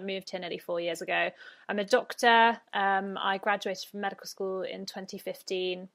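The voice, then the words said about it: British accent. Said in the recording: “I'm British, if the accent did not give me away.”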